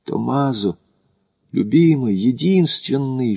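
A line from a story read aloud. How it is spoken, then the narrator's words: Whisper through closed lips. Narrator (Russian): шепнула сквозь сомкнутые губы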